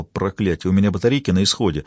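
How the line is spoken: Muttered. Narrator (Russian): пробормотал

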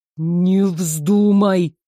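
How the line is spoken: Hissed. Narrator (Russian): прошипел он

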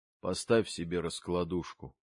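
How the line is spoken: Mutter. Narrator (Russian): он пробормотал

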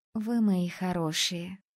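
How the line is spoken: Purring affectionately. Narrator (Russian): Ласково промурлыкала я

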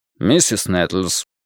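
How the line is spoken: Cold question. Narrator (Russian): холодно спросил доктор

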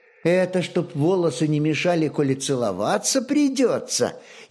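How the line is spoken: Mocking snicker. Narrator (Russian): Ехидно прыснула сестренка

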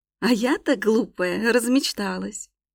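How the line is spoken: Bitter laugh. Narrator (Russian): Горько рассмеялась будущая королева

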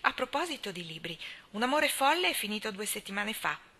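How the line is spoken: Thoughtful tone. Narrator (Italian): disse il capitano Jim in tono pensieroso

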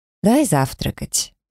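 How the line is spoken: Conciliatory. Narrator (Russian): примирительным тоном предложил парень

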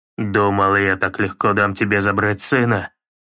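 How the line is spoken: Calm growl. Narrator (Russian): прорычал он с неожиданным спокойствием

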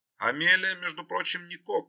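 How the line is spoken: Deliberately stern, loud over birds. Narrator (Russian): ответила Джилл также нарочито строго и громко, стараясь перекричать орущих бакланов

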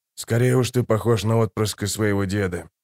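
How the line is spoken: Hoarse old man's voice. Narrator (Russian): хриплым стариковским голосом ответил Хават

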